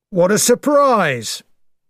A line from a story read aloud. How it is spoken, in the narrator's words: he cried